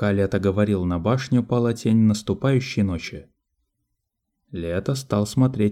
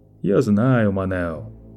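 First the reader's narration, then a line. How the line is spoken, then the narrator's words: Soft, ingratiating tone. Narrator (Russian): продолжало Лето всё тем же мягким, вкрадчивым тоном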